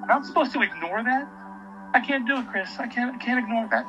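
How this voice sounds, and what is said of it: Emotional, choked-up delivery. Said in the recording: “I'm getting emotional now”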